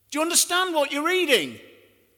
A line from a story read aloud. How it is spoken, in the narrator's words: He shouts